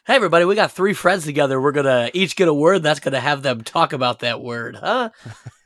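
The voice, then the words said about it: Cheesy drive-time radio DJ voice. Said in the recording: “drive time radio voice ... I love drive time radio voice.”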